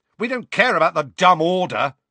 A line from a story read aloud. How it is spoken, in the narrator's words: shouted Fred